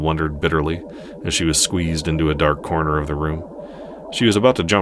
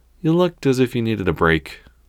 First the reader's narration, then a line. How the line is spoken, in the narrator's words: Penelope said, holding back a laugh